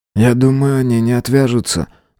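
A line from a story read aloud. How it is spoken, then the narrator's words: Sighing. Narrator (Russian): вздохнул Синистр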